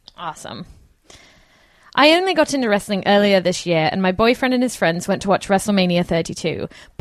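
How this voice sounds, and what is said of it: Put-on English accent. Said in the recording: “Do you want to do this in Jesse's English voice, maybe? ... I'll do it in English accent. I hope I do it justice.”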